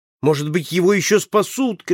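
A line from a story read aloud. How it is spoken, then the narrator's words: Shouting. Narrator (Russian): кричал я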